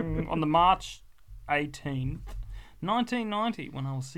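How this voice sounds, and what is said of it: Usual voice. Nothing is said of it.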